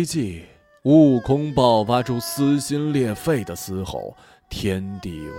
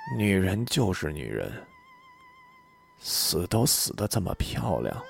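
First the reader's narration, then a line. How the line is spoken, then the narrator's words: Murmuring. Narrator (Chinese): 悟空……喃喃地说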